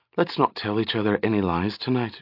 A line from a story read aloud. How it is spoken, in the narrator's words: she whispered